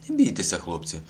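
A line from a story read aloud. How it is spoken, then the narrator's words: Exclamation. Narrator (Ukrainian): вигукнув Кося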